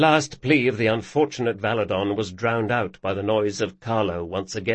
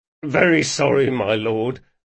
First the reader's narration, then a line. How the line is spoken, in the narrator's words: moaned Carlo